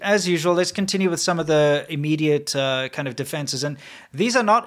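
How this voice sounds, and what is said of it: Usual voice. Nothing is said of it.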